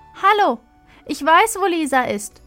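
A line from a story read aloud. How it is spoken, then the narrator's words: Desperate shout. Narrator (German): schreit Marie jetzt verzweifelt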